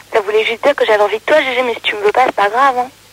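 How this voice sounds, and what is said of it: Hoarse, cracked voice. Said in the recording (French): “j'ai juste la voix cassée ... t'as ta voix cassée”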